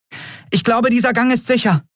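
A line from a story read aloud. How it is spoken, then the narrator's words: Called out. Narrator (German): rief sie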